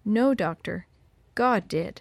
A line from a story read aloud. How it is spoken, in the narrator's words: she replied quietly